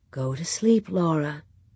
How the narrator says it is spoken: Ma said softly

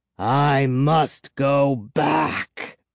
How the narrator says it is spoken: he rasped

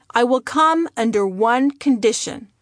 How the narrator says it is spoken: my father said

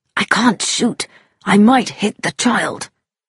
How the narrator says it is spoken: Haydock whispered

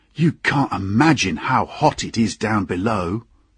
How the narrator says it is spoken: said a voice

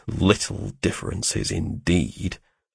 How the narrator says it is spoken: I muttered

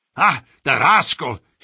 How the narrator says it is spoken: cried

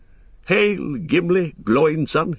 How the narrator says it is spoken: cried

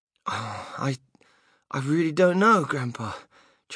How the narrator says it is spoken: Charlie stammered

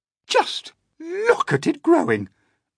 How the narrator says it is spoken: Aunt Spiker cried

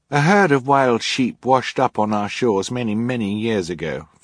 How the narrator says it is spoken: Friday said

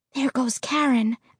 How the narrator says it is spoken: I whispered

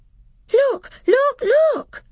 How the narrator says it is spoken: cried Lucy

